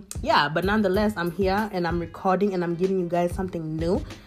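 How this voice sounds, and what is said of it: Shaky voice from a cold. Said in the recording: “my voice is a little shaky because I'm recovering from a slight cold”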